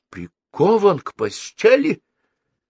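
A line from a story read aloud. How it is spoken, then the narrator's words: Exclamation. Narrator (Russian): воскликнул Старжин Фиц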